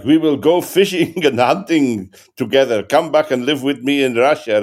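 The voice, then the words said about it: Put-on Russian accent. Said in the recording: “A Russian character ... Russian ... What's your accent?”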